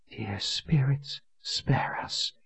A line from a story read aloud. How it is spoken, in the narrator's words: Colin whispered